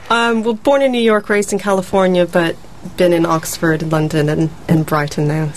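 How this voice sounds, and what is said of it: American accent. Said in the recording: “you've got an American accent”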